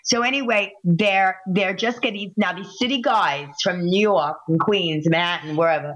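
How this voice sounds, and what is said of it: New York accent. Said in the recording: “Did you hear the New York accent come out”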